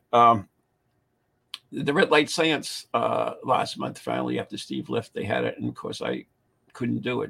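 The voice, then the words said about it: Strained, fading hoarse voice. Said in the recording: “I'm losing my voice too.”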